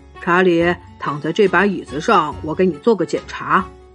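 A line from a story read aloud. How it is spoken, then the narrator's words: Gentle voice. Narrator (Chinese): 狮子医生温柔的对他说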